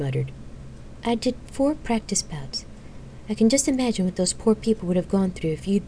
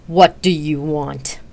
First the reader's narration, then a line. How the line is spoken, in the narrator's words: Xena growled loudly